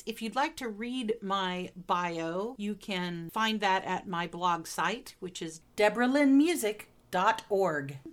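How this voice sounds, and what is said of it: American Midwestern accent. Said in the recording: “you've probably already discerned from my accent that I am not an Englishwoman, but am in fact a Midwesterner in the United States”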